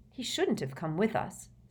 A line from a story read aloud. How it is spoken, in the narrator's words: said Hermione in a worried voice